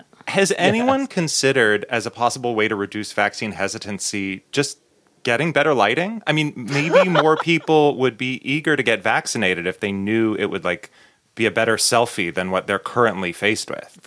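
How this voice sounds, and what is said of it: Newscaster-style delivery. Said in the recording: “using your news voice to make statements like that ... That was your news voice”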